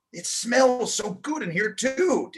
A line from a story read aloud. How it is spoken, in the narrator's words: exclaimed, drawing a deep breath through his nose